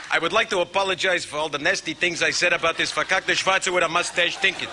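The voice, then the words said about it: Jackie Mason impression. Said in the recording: “Rick Moranis appears as Jackie Mason in the cold open, doing a fantastic impression ... he's doing a Jackie Mason, another great comedian ... I've never heard anybody do a Jackie Mason impression, and it's perfect”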